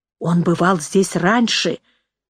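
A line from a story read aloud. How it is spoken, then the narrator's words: Hiss. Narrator (Russian): прошипела Нэнси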